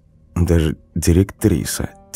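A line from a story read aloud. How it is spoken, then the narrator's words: Quiet. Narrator (Russian): тихо проговорил Никита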